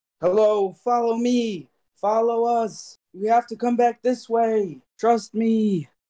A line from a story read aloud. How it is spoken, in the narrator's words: I will be yelling out